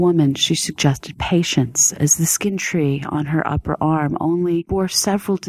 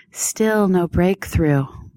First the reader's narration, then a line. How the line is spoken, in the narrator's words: Pitsami said, with a sigh